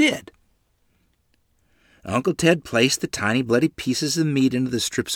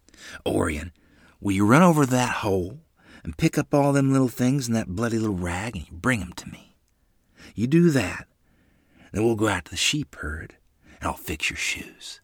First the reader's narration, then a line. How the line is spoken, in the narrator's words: Uncle Ted whispered to me